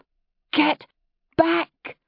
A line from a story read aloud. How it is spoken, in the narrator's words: She gasped